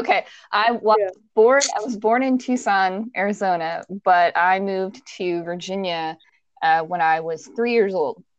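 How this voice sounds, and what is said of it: Virginia accent. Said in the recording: “all Virginia accent”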